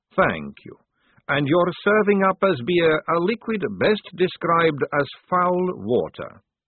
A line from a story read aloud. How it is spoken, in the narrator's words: Maledict went on in the same level conversational tone